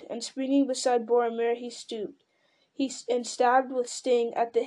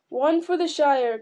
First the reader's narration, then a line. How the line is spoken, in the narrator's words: cried Aragorn